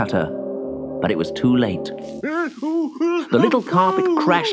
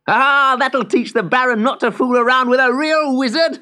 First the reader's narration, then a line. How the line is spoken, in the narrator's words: laughed Simeon